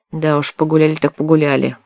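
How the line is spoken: Gloomy. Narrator (Russian): мрачно добавил третий

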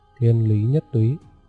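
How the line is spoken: Plain. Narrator (Vietnamese): Cố Phi nói

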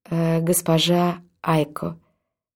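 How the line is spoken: Plain. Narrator (Russian): сказала она

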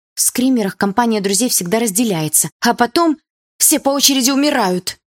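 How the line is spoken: Frightened. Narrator (Russian): испуганно сказала Дилара

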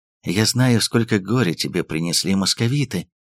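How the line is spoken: Muffled whisper. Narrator (Russian): прошептала она, уткнувшись в его плечо

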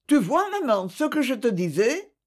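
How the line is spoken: Triumphant exclamation. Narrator (French): s'exclama Thérèse triomphante

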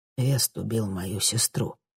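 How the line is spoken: Quiet. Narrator (Russian): тихо добавил он

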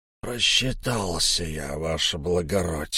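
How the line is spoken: Hoarse reply. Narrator (Russian): сипло ответил Кистень

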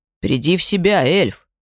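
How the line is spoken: Impatient growl. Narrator (Russian): рыкнул нетерпеливо

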